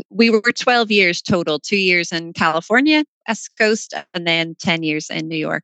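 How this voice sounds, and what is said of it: Non-New York accent. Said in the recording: “As you will hear from ... accent, she is not a native New Yorker.”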